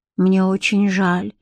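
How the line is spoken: Sighing. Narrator (Russian): вздохнула Бренна

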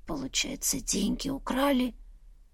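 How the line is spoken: Hoarse, horrified question. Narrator (Russian): Сипло спросила я, все глубже погружаясь в трясину этого кошмара

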